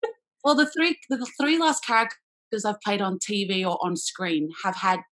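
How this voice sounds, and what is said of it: Usual voice. Nothing is said of it.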